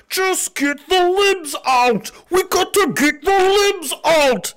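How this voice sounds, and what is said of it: Mocking impression of a conservative voter. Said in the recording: “my impression of a conservative voter”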